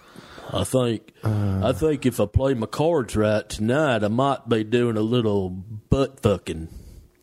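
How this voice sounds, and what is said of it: Put-on accent. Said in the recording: “That's such a scary thing to hear in that accent.”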